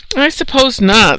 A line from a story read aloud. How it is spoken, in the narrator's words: said Jonathan, sighing